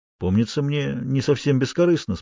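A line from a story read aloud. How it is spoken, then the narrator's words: Calm. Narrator (Russian): спокойно ответил Фрэнк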